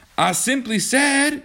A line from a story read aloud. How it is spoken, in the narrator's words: John shouted